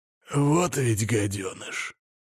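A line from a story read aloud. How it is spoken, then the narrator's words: Slightly hoarse voice. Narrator (Russian): слегка хрипловатый голос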